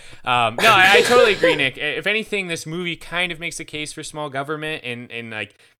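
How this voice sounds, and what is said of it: Usual voice. Nothing is said of it.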